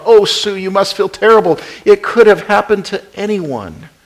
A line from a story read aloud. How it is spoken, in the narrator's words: Tears gathering in her eyes, she sobbed